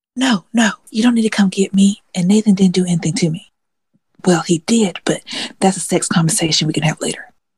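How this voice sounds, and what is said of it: Whispering. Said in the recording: “why are you whispering? ... I'm whispering”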